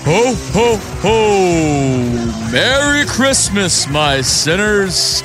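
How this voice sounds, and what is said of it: Jolly Santa Claus character voice. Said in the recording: “my best Santa impression”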